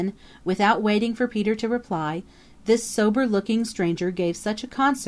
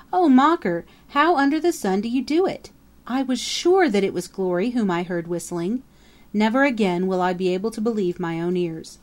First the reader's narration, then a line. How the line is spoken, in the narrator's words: gasped Peter